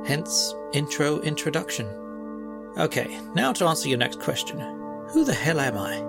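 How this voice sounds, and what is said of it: British accent. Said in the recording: “my scintillating British accent”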